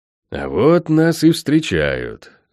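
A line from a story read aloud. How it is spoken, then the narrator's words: Through gritted teeth. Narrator (Russian): процедил магистр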